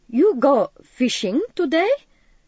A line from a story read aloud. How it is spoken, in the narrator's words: Brunston laughed